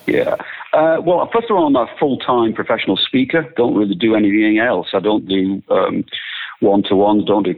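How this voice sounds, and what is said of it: English accent. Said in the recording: “you are an Englishman ... I am English ... the accent maybe gives it away a little bit.”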